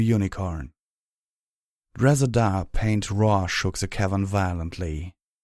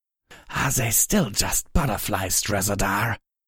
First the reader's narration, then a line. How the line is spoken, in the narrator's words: Himfadora hissed